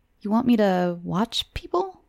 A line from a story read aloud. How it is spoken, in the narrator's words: He laughed